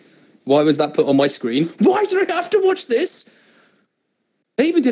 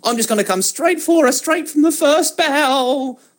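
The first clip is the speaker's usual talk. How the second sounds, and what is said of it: Bad mock Australian accent, Queen-like. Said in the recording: “I'm going to pretend that she is ... I don't know what accent that was. It was like an aroused Queen Elizabeth.”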